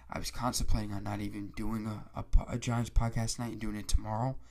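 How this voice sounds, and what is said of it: Raspy, congested sick voice. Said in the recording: “my voice is getting raspy ... I haven't been able to breathe out my nose ... I'm just coming down with something ... My throat's getting all”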